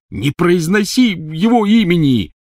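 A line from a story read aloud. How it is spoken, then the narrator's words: Angry, muffled shout. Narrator (Russian): сердито крикнул из палатки Рон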